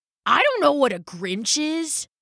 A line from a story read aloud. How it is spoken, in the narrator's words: growled Rambo